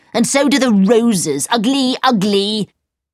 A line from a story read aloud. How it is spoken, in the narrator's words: shouted